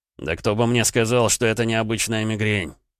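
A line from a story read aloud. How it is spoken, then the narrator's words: Angry reply. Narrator (Russian): злобно ответил Гаранин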